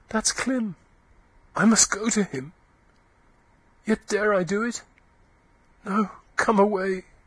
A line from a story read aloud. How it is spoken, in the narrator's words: Eustacia gasped faintly